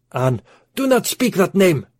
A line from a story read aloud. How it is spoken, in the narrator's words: screamed the Arab